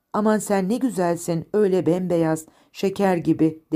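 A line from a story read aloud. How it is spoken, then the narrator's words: Plain. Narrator (Turkish): dedi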